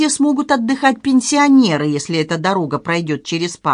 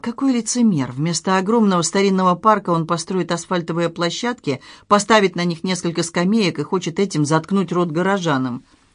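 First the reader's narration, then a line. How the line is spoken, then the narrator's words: Whisper. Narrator (Russian): Сергей Сергеевич прошептал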